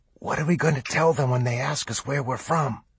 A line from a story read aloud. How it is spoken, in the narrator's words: he whispered